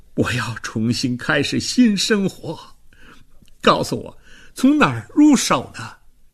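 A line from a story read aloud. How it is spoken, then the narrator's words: Sobbing, face covered. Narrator (Chinese): 范尼亚舅舅掩面痛哭起来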